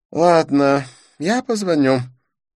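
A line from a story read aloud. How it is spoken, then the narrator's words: Sigh. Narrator (Russian): вздохнул Дидье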